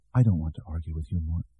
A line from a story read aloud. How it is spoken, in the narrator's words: she said softly